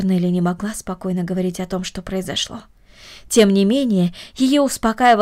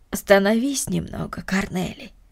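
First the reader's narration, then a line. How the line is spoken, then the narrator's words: Gentle. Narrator (Russian): ласково сказала Марта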